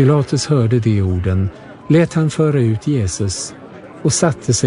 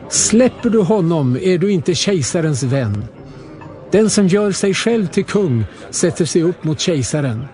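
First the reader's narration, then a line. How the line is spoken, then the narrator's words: Shouting. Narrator (Swedish): judarna skrek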